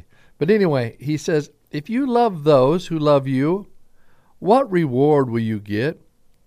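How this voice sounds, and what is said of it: Southern twang accent. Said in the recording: “everybody says that I have a southern twang ... are you from Oklahoma or Texas?”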